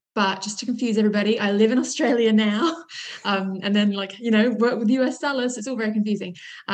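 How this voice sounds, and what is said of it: British accent. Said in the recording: “I'm originally from the UK. That's why you're probably hearing the British accent.”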